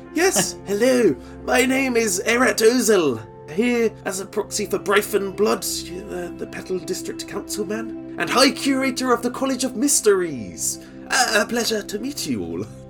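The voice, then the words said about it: Exaggerated posh voice. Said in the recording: “do my poshest voice possible”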